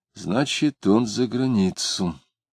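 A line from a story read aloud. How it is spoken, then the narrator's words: Quiet. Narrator (Russian): Дмитрий сказал тихо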